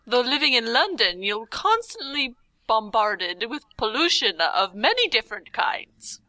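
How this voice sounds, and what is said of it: Put-on old-fashioned English accent. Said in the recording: “Are you Agatha Christie? ... I don't know where I'm going with that accent”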